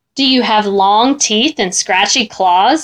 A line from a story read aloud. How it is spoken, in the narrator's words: I asked